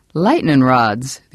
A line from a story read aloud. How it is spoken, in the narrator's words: the old campaigner said and cackled